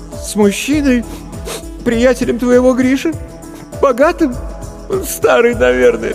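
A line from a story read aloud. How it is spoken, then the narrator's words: Sobbing. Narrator (Russian): всхлипнула Маша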